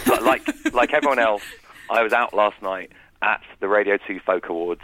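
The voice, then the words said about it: Rough, gravelly hungover voice. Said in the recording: “a little bit hungover ... You can hear from my voice. I've developed the voice of a country singer”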